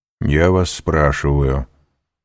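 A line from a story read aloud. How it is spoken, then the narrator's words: Calm voice. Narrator (Russian): продолжал Вильфор спокойным голосом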